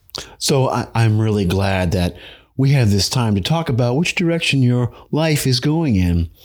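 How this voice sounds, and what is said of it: Life coach character voice. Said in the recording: “your best impression of a life coach”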